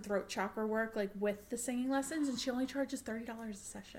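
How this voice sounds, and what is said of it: Long Island accent. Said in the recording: “my fucking Long Island accent”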